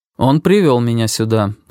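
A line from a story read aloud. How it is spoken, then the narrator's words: Even, level voice. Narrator (Russian): сказал ровным голосом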